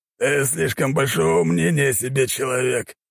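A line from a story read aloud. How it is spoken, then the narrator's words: Hoarse. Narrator (Russian): хрипло произнес Высший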